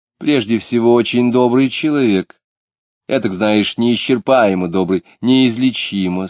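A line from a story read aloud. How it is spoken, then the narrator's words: Plain. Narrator (Russian): сказала бы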